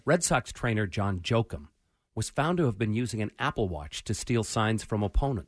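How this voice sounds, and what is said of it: Dramatic reading voice. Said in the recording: “doing my dramatic voice”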